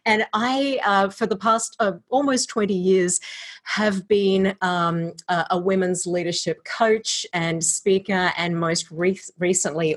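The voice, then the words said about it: Australian accent with American influence. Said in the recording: “I am an Australian living in Iowa via California. So if you're wondering about the accent, it's Australifony Iowan.”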